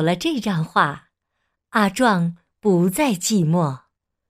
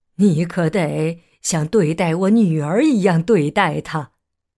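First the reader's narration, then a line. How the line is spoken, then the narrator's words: Joking. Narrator (Chinese): 画师开玩笑的对阿壮说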